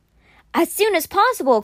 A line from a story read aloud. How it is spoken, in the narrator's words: Constance cried